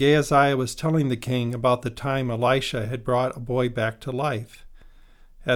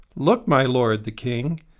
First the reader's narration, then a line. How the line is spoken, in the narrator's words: Gehazi exclaimed